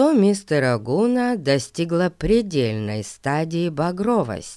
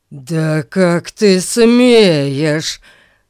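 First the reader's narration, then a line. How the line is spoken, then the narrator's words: Growling. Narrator (Russian): зарычал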